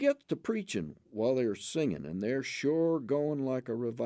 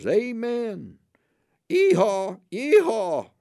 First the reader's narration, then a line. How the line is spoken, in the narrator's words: hollers old Judy